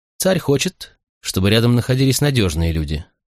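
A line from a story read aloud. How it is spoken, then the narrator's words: Calm reply. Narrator (Russian): спокойно ответил Кадминий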